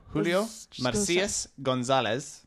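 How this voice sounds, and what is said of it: Put-on foreign accent saying a name. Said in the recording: “Probably a little racist... It sounded racist... With the accent”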